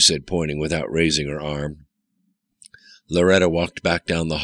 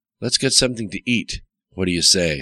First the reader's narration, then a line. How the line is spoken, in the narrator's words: said Riker